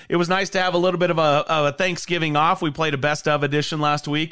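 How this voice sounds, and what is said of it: Raspy voice. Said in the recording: “I apologize for the raspy voice”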